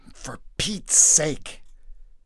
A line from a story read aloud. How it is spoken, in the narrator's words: Jesus muttered to himself